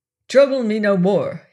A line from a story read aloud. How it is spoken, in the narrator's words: he snapped